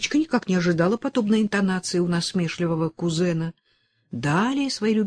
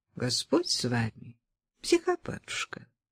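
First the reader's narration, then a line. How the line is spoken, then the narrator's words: Soft, caring, tender. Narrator (Russian): сказал он мягко, участливо, почти нежно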